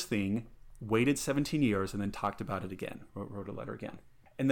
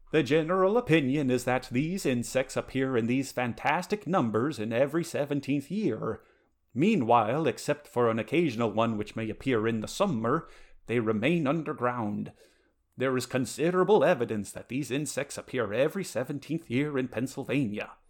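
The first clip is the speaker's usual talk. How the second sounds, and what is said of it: Exaggerated put-on Swedish accent. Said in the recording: “with or without a Swedish accent ... go for broke ... an offensive accent”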